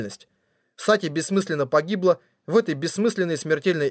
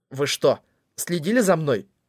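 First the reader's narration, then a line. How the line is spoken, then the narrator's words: Hoarse, forced words. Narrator (Russian): я хриплым голосом выдавил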